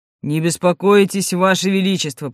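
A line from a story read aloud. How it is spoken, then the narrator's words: Deep bass voice. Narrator (Russian): произнес глубоким басом снежный человек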